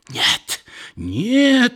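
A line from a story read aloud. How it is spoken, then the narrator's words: Sick woman's strange scream. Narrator (Russian): закричала больная каким-то особым, не бабушкиным голосом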